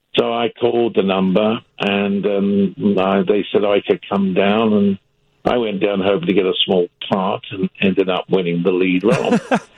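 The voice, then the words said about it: British accent. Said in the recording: “I've got a British accent... I did have a British accent. I've had it for a long time.”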